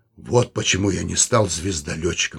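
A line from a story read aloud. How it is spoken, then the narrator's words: Slightly hoarse. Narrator (Russian): сказал он немного хрипло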